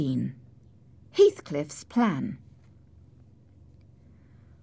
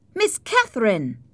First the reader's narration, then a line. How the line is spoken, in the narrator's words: I called out